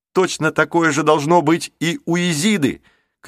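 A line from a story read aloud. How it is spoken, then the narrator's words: Shouted. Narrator (Russian): крикнул Джейсон друзьям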